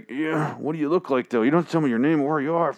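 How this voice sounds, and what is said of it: Imitates another person's voice. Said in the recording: “I think he's like doing a speaking jerk... That's my impression of Eugene there.”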